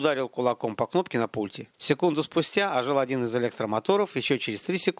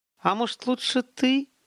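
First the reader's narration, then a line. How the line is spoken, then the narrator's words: Hesitant. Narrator (Russian): Неуверенно начал Олег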